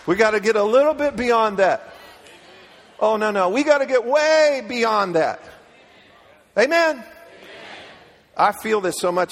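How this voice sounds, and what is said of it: Yelling, loud impassioned preaching. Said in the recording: “I'm yelling.”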